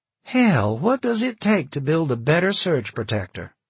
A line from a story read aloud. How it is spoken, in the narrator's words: John sighed